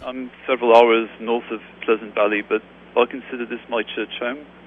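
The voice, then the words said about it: Northern Georgia accent. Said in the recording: “I can tell by your accent that it has to be northern Georgia, because I sure don't hear a southern Georgia accent”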